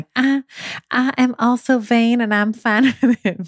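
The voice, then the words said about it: Put-on Southern accent. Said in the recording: “I always pull out the Southern accent”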